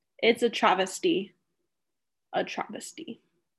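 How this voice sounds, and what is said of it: Put-on British accent. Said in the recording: “as I talk in a British accent”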